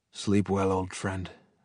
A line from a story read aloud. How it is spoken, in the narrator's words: murmured Axial